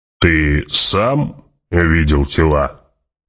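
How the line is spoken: Booming voice. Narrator (Russian): прогудел барон

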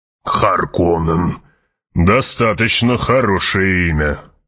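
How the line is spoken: Grumbled. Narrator (Russian): проворчал

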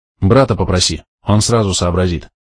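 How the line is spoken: Plain. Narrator (Russian): ответил я

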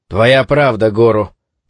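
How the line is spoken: Grumbling. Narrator (Russian): проворчал Куроба

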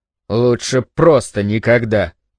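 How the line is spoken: Grumble. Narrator (Russian): пробурчал он

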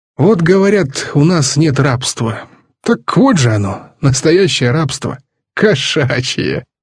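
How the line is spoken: Giggling. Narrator (Russian): Папа снова хихикнул

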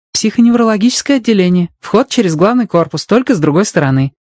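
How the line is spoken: Joyful blurt. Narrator (Russian): радостно выпалила Робин

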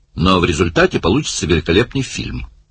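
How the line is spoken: Cheerful remark. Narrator (Russian): бодро заметил Барни

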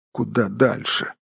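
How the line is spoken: Hobbit muttering to himself. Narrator (Russian): бормотал хоббит себе под нос

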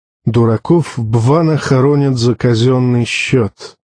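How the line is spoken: Grumbling mutter. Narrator (Russian): буркнул Тарталья

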